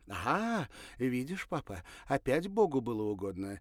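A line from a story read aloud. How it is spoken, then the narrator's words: Exclamation. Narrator (Russian): воскликнула Ирина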